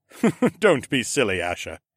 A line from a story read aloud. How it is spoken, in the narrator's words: he chuckled